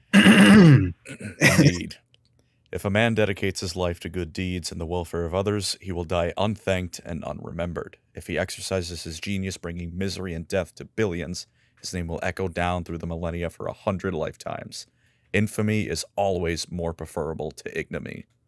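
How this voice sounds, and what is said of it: Dramatic theatrical reading voice. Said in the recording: “dramatic voice”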